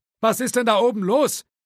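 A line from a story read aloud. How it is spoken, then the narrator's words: Eccentric man calling from afar. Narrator (German): rief der verschrobene, eigenbrötlerische Grafikdesigner aus dem Büro im ersten Stock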